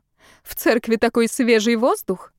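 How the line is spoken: Laughing. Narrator (Russian): рассмеялась Томилина

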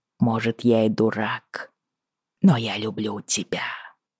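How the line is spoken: Whispered in ear. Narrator (Russian): прошептал он ей на ухо

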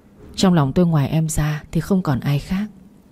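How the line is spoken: Gentle, smiling. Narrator (Vietnamese): Quý Dương cười nói nhẹ nhàng

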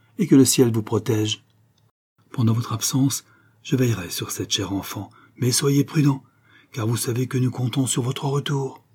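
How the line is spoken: Deeply moved voice. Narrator (French): dit Kernan, d'une voix profondément émue

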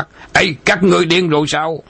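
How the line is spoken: Alarmed shout. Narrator (Vietnamese): Đàm Dũng kinh hãi quát

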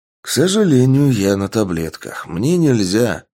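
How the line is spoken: Answered with sad sigh. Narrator (Russian): грустно вздохнув, ответил Сергей

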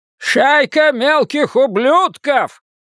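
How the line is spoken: Grandfather yelling. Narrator (Russian): заорал дедушка

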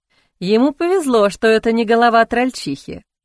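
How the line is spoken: Snort. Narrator (Russian): хмыкнул Арван

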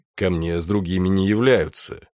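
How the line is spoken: Gloomy grumbled mutter. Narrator (Russian): хмуро буркнул Малефик

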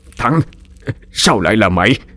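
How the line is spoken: Stammering. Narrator (Vietnamese): ông Hành mới ú ớ lắp bắp

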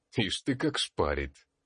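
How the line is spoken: Mischievous snort. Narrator (Russian): хмыкнул Калистратис, озорно

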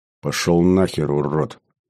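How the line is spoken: Hissed. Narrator (Russian): прошипел я

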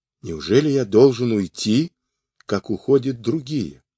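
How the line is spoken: Quiet, exhausted question. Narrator (Russian): измученный бессонницей, он тихо спрашивал

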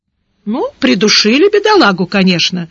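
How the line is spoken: Wry snort. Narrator (Russian): хмыкнул Гаудин

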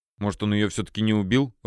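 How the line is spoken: Timid suggestion. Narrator (Russian): робко предположил Федя

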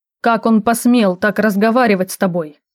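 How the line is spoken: Growled. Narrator (Russian): снова рыкнул Цербер

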